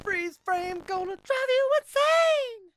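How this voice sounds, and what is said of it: Falsetto singing. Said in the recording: “I did a falsetto with that.”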